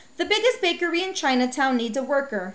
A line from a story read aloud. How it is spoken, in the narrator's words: said the innkeeper